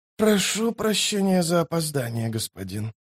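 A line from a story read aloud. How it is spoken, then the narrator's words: Hoarse exhausted voice. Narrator (Russian): проговорила она хриплым от изнеможения голосом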